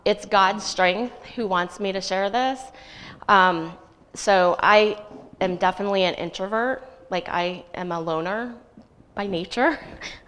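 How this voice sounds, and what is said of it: Nervous, uncomfortable-sounding voice. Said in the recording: “I'm not comfortable up here, as you can tell by my voice.”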